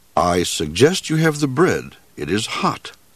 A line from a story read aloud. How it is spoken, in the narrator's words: said the moose